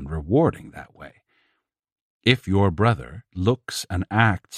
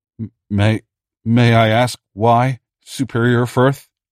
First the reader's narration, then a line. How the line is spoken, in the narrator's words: Elix gasped out, maintaining core protocol even through his panic